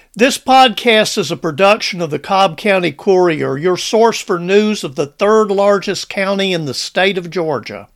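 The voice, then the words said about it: Strong harsh Southern US accent. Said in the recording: “Golly, that feller has a harsh southern accent.”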